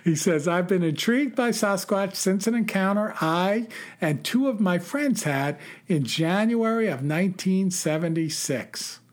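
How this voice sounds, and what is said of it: New York accent. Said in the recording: “your accent reminds me of my grandmother and great aunt, a classic Irish Catholic wit. Who were New Yorkers as well”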